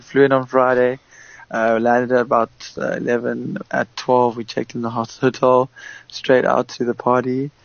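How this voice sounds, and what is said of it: Worn-out, strained voice. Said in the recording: “That's why my voice is a bit hectic.”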